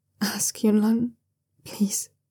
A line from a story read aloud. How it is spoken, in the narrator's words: he pleads in a quiet voice